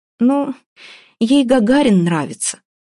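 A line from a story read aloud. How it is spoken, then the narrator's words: Sighing. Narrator (Russian): вздохнула Вася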